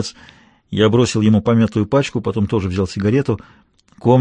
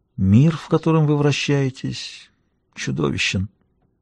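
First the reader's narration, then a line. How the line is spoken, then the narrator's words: Muttering. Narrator (Russian): он пробормотал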